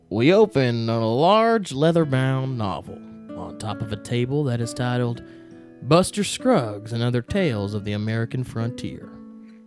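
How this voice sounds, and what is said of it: Put-on country Western accent. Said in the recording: “I'm going to read in a country, in a Western accent”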